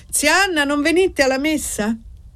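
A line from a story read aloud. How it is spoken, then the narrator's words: Shouted. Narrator (Italian): Annessa gridò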